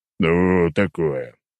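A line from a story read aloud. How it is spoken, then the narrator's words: Old man's deep bass. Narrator (Russian): пробасил старик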